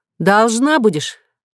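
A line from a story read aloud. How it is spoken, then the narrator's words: Grumbling snorting agreement. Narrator (Russian): ворчливо согласившись, Татьяна хмыкнула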